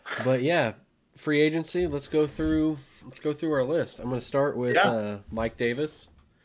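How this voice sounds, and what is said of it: Flat monotone voice. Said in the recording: “as you can tell by my monotone voice”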